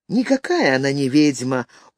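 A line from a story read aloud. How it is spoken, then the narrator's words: Tired voice. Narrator (Russian): утомленным голосом сказал Филипп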